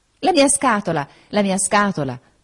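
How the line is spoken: Exclaimed. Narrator (Italian): esclamò

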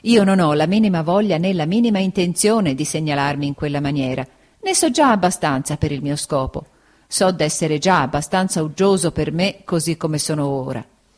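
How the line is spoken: Said laughing. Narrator (Italian): disse Steerforth ridendo

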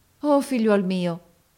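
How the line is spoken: Exclaimed. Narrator (Italian): esclamò essa

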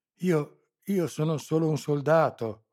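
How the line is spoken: Pleading stammer. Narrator (Italian): balbettò in tono supplichevole

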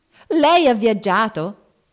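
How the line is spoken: Shouted question. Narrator (Italian): gridò Joe

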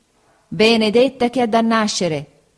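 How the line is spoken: Exclamation. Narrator (Italian): esclamò la signora Bezze

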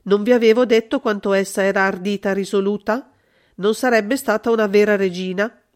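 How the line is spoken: Cold. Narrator (Italian): Holmes riprese freddamente

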